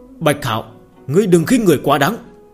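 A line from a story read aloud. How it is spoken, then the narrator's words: Angry loud shout. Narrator (Vietnamese): sắc mặt tộc trưởng Trần gia giận dữ, hắn quát lớn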